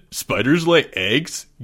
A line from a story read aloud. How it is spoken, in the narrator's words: giggled Greg